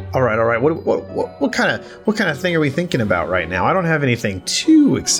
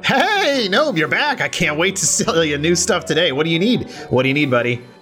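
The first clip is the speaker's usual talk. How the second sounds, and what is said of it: Excited cartoonish character voice. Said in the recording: “What was this guy's voice? Just, he was excited? ... He was Junkrat. Just Junkrat, but without an Australian accent.”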